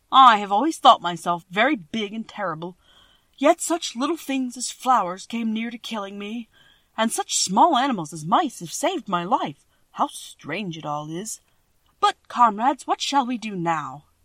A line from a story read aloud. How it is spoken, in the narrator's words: the Cowardly Lion laughed and said